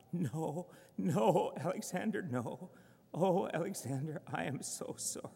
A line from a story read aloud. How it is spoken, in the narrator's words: me crying out and sobbing